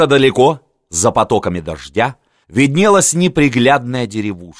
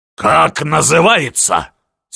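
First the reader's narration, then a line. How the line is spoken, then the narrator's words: Angry question. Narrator (Russian): сердито справился Миних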